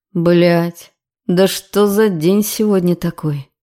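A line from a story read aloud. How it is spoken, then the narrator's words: Resigned groan. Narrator (Russian): Обреченно простонал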